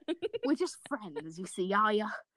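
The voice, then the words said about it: Grandmotherly, Australian-sounding character voice. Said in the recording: “he sounds ... Australian. ... Now he sounds like some sort of grandmother.”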